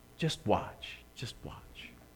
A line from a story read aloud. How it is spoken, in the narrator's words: The respected grandfather quietly told the boy